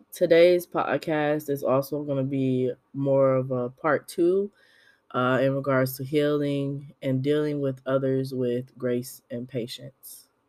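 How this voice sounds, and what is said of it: Raspy voice. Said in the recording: “COVID got me for the second time. So if my voice is raspy”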